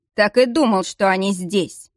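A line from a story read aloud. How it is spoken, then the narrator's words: Wry scoff. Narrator (Russian): хмыкнул тем временем этот невозможный мужчина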